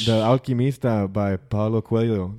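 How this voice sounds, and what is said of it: Put-on Portuguese accent. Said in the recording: “You said it in a por- Portuguese accent.”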